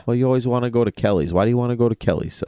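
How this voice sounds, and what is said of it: Put-on Boston accent. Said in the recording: “If I did it with a Boston accent”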